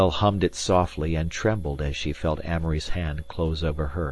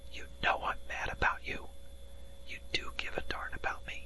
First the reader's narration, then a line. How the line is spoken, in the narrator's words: he whispered